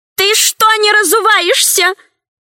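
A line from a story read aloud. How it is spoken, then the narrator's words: Shouting after someone. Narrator (Russian): закричала вслед мужу Мощина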